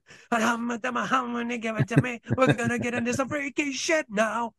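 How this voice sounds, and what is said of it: Impression of a band's lead singer. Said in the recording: “doing a pretty good impression of the lead singer”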